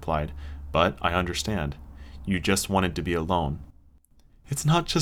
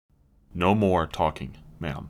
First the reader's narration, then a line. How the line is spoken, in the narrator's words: he said firmly